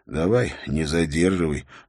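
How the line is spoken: Grumbled. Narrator (Russian): пробурчал он

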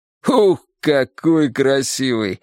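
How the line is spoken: Cheerful grinning remark. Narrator (Russian): весело оскалился Кузин

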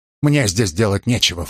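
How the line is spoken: Snorting. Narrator (Russian): фыркнул он

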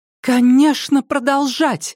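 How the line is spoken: Exclamation. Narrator (Russian): воскликнула миссис Келли

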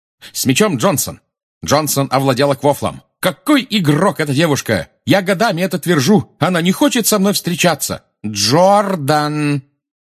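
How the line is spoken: Shouting. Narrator (Russian): крикнула профессор МакГонагал

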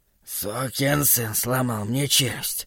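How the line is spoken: Hoarse grumble. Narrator (Russian): хрипло проворчал Холоран

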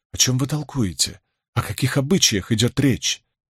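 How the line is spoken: Trembling unrestrained voice. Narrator (Russian): не сдержавшись, произнесла Илэйн дрожащим голосом

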